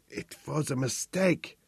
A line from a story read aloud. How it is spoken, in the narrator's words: whispered